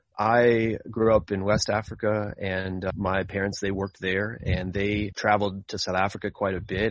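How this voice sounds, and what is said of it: American English accent. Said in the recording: “You may tell from my accent that I'm from the United States. I don't quite sound exactly like the South African wine farmer.”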